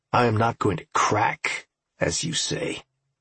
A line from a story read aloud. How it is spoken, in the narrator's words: Campbell snarled